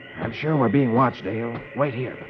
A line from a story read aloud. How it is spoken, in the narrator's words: Flash whispers